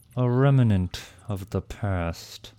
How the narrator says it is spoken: Tarkus replied lazily

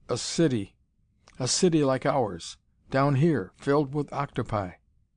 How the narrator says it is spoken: the first officer exclaimed

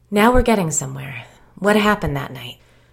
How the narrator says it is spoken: She sighed and said

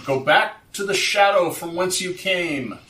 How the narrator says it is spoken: I feel a chill going through me, shout

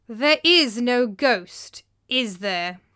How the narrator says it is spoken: he said coldly

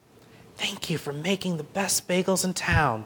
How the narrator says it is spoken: Benny whispered

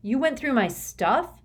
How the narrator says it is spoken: I shouted

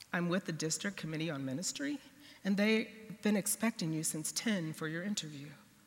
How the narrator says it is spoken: Very calmly said

